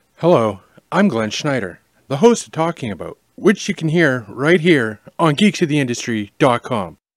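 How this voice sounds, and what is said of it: Celebrity voice impression. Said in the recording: “Celebrity voice impersonated.”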